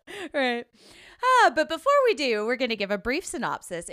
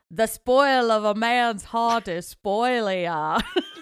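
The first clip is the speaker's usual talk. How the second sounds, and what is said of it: Fred Gwynne impression. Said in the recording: “I apologize to Fred Gwynne and Stephen King ... doing the Fred Gwynne voice”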